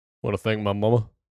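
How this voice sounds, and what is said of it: Imitates another person's voice. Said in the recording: “his Elvis impersonation ... Saving the impressions”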